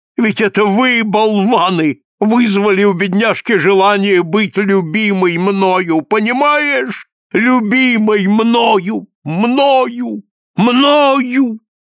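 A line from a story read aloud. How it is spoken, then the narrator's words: Inconsolable sobbing. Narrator (Russian): разражается безутешными рыданиями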